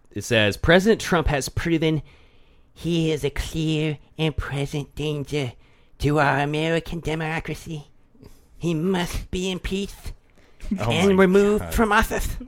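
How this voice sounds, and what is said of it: Imitates another person's voice. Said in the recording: “That was not your best like impression ... I'm trying to be as real of an actor as Nancy”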